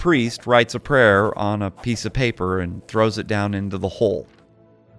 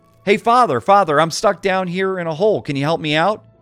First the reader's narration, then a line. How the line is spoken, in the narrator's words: the man shouts up to him